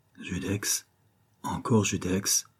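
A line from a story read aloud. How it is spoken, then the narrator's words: Oppressed young woman murmuring. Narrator (French): murmurait la fille du banquier oppressée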